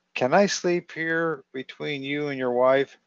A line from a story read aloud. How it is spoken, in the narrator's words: I begged